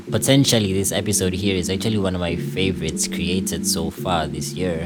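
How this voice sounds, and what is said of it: Slightly weird, sick-sounding voice. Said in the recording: “I went and got myself a flu this weekend, so my voice is a little weird”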